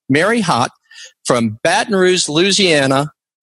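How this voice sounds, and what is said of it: Put-on Southern accent. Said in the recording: “See, that's my southern accent.”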